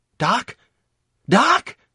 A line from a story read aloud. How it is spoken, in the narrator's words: I howled in anguish